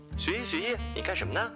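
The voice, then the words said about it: Sugary, coquettish cutesy female voice. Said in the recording (Chinese): “一个甜的发腻的声音 ... 发嗲的声音”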